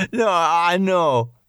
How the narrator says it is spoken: Brian continued, still laughing

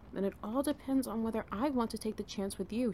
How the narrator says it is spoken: she murmured

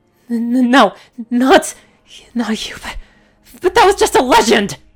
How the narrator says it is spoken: She screamed

